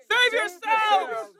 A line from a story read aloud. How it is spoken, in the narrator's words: They shouted